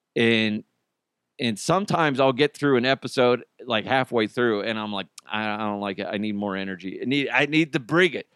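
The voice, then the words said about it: Strained, tired voice. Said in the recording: “my voice is a little strained ... my voice, my precious pipes, they're wounded”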